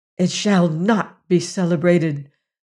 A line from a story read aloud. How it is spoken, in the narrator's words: said Wanna almost fiercely